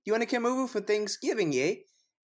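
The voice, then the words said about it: Poor put-on Canadian accent. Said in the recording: “I'm the Canadian ... I don't know if I can condone that accent ... It was a mix of, I don't know, Russian, German”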